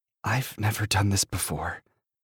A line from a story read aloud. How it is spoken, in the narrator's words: I whisper